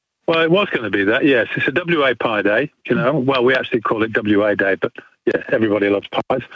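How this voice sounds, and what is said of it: English accent. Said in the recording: “I detect a bit of an accent ... you've got an English accent. ... It's been 45 years, though.”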